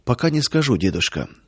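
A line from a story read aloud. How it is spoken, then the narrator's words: Quiet answer. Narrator (Russian): тихо ответил он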